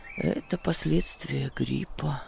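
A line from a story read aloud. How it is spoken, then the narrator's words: Muttered. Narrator (Russian): пробормотал он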